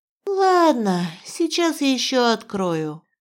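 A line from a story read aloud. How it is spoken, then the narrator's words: Sad sigh. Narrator (Russian): печально вздохнула я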